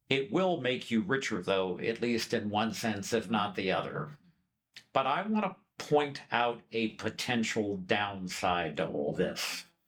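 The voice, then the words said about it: American accent. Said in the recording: “everybody knows from my accent that unlike these two lovely human beings here, I'm American”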